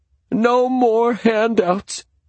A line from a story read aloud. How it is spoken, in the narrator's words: he cried in a high voice